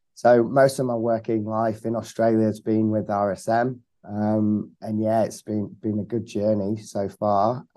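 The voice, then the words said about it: Slight British accent. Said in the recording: “I detect a bit of an accent there ... I'm from the UK originally”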